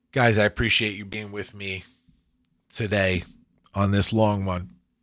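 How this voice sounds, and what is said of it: Hoarse, fading voice. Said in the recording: “I'm completely losing my voice.”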